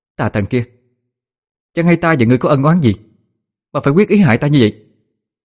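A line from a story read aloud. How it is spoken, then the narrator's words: Raised voice. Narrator (Vietnamese): Cô cao giọng nói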